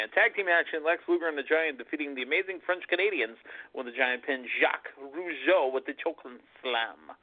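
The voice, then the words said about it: Put-on French-Canadian accent. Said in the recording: “I try to put a little accent on it, a little French-Canadian accent, a little stink, a little au jus”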